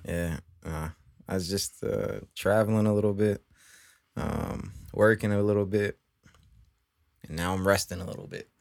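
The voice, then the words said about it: Tired-sounding voice. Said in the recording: “You sound very tired.”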